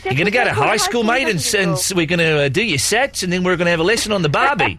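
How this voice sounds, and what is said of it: Subtle put-on Australian accent. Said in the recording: “my Australian accent, Vicky, was it over the top or was it quite subtle? ... It's quite subtle.”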